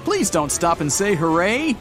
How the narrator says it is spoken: A cycler passes by, shouting on the go

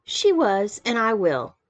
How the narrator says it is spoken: I said warmly

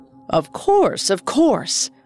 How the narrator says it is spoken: Ali Baba eagerly responded

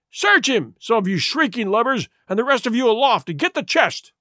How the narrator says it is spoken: he cried

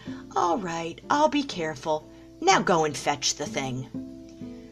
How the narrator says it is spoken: The dragon purred at this compliment and said

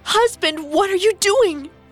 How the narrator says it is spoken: Megara screamed at him

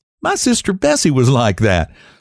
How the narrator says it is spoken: laughed Mrs

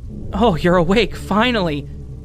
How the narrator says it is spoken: he shouted joyfully

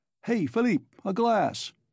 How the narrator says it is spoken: shouted Svidrigaïlov

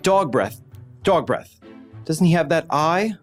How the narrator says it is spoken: He blurts out

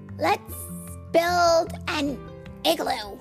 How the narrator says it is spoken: barked Oscar

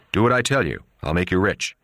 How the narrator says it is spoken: Luca Brasi turned back to Filomena and said harshly

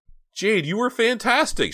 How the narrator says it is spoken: she shrieked

